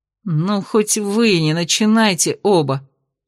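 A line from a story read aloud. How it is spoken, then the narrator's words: Groaning. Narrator (Russian): простонал он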